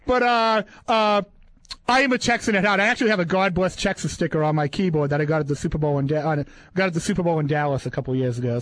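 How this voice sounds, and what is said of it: Boston accent. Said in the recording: “I've lived in Boston my whole life, as you can probably tell by the way I talk”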